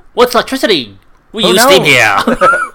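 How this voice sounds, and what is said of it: Bad put-on mid-Atlantic accent. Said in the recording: “that weird mid-Atlantic accent ... That was a really bad accent.”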